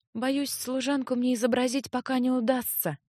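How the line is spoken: Sad confession. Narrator (Russian): тоже по-харкасски печально призналась Леа

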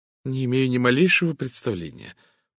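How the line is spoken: Embarrassed mumble. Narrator (Russian): покраснев, пробормотала миссис Таниус

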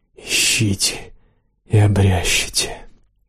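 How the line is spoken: Mysterious woman's whisper. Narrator (Russian): послышался шепот таинственной женщины

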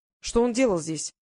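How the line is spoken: Sharp question. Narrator (Russian): резко спросил Квиллер

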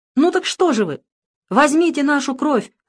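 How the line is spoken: Exclaiming. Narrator (Russian): воскликнула Ева

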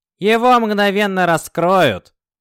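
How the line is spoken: Lieutenant grumbling. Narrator (Russian): проворчал лейтенант Валек

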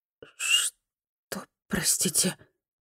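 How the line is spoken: Hoarse whisper. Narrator (Russian): хрипло зашептала Фуми

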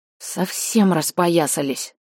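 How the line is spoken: Mutter. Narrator (Russian): пробормотала я

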